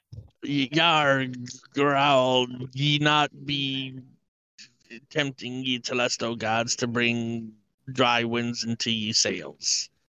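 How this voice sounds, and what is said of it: Half-hearted pirate voice. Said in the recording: “I don't trust your dedication to this part, sir ... the pirate thing is just never something I've tried”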